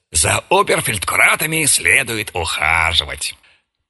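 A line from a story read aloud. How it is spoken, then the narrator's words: Undertone remark. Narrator (Russian): Вольно определяющийся заметил вполголоса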